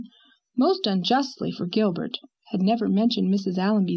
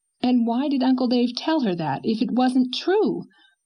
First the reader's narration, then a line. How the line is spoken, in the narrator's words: cried Anne triumphantly